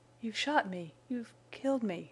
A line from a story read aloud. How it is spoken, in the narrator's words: she whispered, in panting gasps